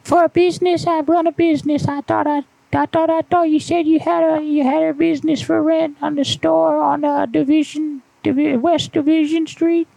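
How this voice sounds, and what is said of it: Childish voice mixed with old woman. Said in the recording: “Voice is basically the little pee pee in your old woman voice put together.”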